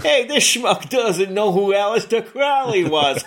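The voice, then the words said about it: Put-on New York accent. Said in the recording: “affected a New York accent.”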